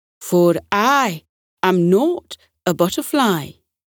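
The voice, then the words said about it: Strong Scottish accent. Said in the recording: “he said in a strong Scottish accent”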